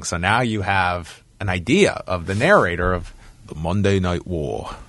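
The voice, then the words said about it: Poor imitation of another person's voice. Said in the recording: “That's a terrible Keith David impression.”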